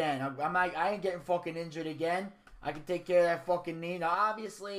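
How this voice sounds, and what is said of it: Usual voice. Nothing is said of it.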